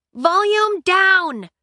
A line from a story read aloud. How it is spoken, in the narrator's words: she yelled out to the main room